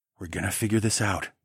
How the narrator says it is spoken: I whispered

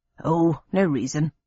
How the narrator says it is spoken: muttered my father, with feigned innocence

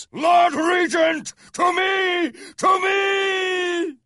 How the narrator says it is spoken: The attacker was still shouting in that ear-splitting voice

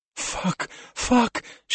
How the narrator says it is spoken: she whispered, her shoulder on fire

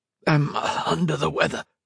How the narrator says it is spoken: In the hoarsest voice possible, which wasn't difficult since his lungs were still raw, he said

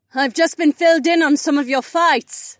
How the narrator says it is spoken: Cat yelled

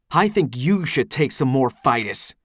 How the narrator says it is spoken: Eldis growls

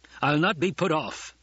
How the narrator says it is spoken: the Colonel Bashar snarled

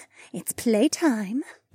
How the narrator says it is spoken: Becca purred

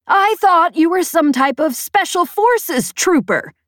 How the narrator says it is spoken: she shouted

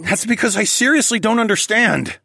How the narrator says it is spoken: I growled

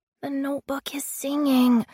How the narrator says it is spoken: whispered

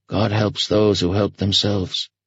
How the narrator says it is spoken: Homer replied wearily

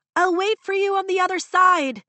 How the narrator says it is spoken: she shouts over the storm

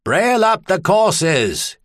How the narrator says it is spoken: he shouted

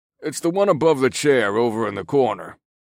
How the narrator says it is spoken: Bert grumbled in a resigned tone

